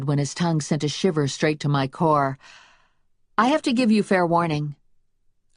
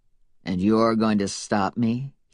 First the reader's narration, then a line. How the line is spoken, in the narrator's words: He asked, his voice skeptical